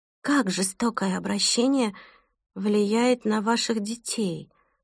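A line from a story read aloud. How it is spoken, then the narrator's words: Plain. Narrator (Russian): спросила Сьюзи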